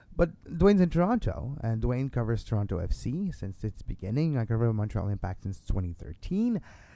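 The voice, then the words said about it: Quebec French-Canadian accent in English. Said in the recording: “you dissect an accent from me. I'm from Quebec. I'm from Montreal. I speak French”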